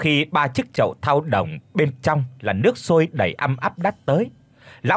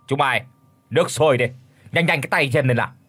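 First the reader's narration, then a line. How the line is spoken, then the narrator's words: Cold, domineering. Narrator (Vietnamese): Lão nói một câu giáo hoành lạnh lùng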